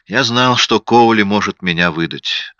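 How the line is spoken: Tired. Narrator (Russian): сказал я устало

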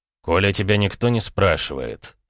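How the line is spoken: Calm interruption. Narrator (Russian): спокойно перебил я

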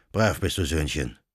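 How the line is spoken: Old man murmuring. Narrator (German): murmelte der Kanonikus

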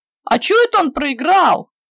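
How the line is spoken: Indignant group rumble. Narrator (Russian): Возмущенно загудели пацаны

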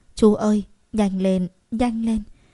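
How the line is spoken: Woman's voice, moaning. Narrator (Vietnamese): một giọng phụ nữ quen thuộc, kèm theo tiếng rên rỉ

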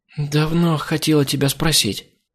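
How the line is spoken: Sleepy mumble. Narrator (Russian): пробормотала Криса

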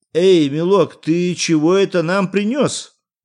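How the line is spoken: Shouting with shame, anger. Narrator (Russian): крикнул официанту красный от стыда и гнева Иван Андреевич

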